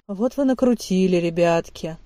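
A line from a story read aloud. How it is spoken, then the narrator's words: Kind sigh. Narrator (Russian): по-доброму вздохнул Эрнольд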